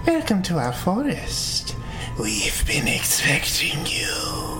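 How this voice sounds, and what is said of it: Witch character voice. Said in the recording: “It sounded like a witch voice.”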